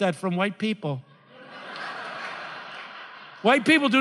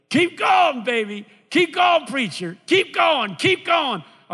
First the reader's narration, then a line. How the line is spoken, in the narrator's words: they'll yell